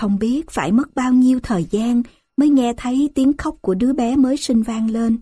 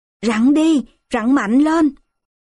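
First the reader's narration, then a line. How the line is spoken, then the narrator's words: Loud shout. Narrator (Vietnamese): tôi hét to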